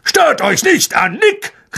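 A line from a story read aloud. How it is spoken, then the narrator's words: Call from the floor. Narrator (German): rief Sir Patricks Kopf vom Fußboden hoch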